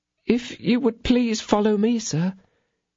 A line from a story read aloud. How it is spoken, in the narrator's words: said Kitty timidly